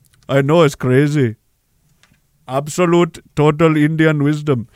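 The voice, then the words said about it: Put-on Indian accent. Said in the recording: “It only works because of this accent.”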